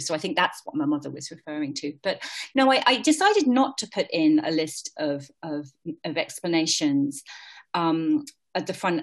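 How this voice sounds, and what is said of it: British accent with some American influence. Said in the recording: “my British accent was probably a little stronger back then, although I have been told by most people I still do have a British accent. My mother would always beg to differ. She said I sounded like a damn Yank”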